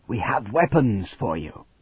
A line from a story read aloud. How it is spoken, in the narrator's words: Hal whispered